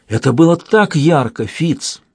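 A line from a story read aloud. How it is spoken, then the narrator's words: Bitter exclamation. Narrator (Russian): воскликнул он с горечью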